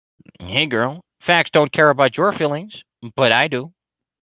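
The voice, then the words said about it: Weak Ben Shapiro impression. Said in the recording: “I don't do a very good Ben Shapiro impression”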